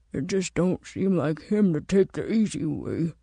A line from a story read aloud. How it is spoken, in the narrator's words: Walker muttered